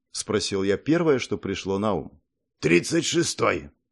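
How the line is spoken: Calm answer, monk. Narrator (Russian): спокойно ответил монах

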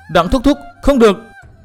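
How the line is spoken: Panicked loud shout. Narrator (Vietnamese): Mai Lãnh Tuyết hốt hoảng hét to

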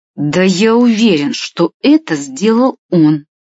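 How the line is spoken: Boor speaking through teeth. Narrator (Russian): процедил жлоб

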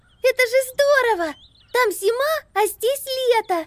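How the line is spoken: Joyful squeak. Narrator (Russian): радостно пискнула Амелия

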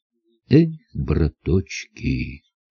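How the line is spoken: Sigh. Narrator (Russian): вздохнул Савва Иванович

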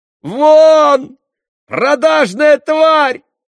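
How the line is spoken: Screaming. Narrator (Russian): завопила Катерина Ивановна

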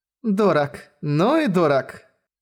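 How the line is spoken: Cheerful laughing girl. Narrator (Russian): весело рассмеялась девушка

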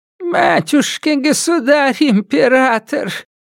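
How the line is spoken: Creaky voice. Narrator (Russian): проскрипела

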